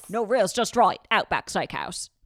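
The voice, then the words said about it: Put-on Australian accent. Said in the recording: “Your Australian accent, the evolution that it has taken ... that's the only time I can bust out my Australian accent.”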